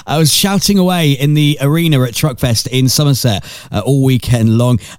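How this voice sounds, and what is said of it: Croaky, partly lost voice. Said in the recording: “lost my voice a little bit today. If I sound a little bit croaky”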